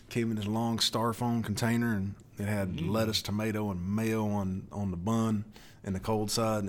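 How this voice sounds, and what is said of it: Southern US accent. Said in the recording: “I can still hear the southern accent you got from being in Alabama.”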